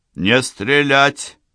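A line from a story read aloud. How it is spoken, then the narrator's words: Commanding voice. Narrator (Russian): раздался чей-то командный голос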